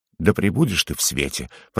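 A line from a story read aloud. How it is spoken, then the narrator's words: Mutter. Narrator (Russian): пробормотал Угорь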